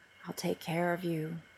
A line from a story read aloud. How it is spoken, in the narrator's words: he says softly